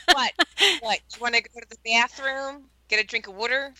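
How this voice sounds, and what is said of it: Philadelphia accent. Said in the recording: “That's right, Philadelphia... Your accent is just charming.”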